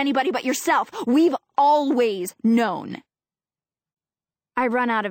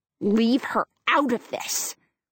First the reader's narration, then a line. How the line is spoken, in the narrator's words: Lindsay hisses